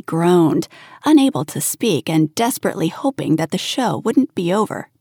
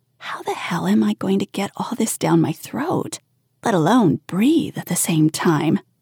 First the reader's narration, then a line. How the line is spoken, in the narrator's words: She muttered